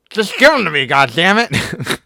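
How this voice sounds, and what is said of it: Imitates another person's voice. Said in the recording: “my impression of you”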